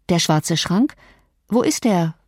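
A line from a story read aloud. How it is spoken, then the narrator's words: Plain. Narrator (German): fragte ich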